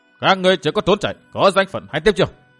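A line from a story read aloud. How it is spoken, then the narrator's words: Loud scolding. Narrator (Vietnamese): 10 tên đặc đẳng giáo sĩ lớn tiếng nạt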